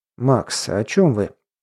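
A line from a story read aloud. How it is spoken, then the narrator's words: Quiet question. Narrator (Russian): тихо спросил Бен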